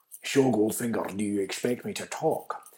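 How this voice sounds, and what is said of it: Sean Connery impression. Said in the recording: “my Sean Connery impression”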